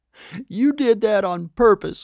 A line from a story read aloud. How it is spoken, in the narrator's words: wailed Vanessa the pig